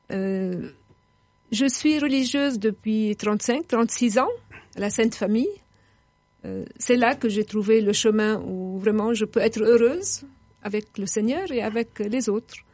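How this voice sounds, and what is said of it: Lebanese-accented French. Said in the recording (French): “je suis libanaise. Je pense que mon accent me trahit.”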